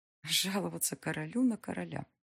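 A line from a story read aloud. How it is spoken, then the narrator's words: Joyless wry mutter. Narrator (Russian): пробормотала Алиса, невесело усмехнувшись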